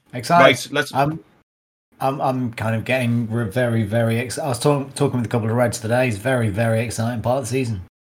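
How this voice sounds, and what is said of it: Weak, strained voice. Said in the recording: “your voice sounds really weak ... I thought you were losing your voice there”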